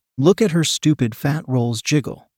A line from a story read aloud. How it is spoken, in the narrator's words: someone exclaimed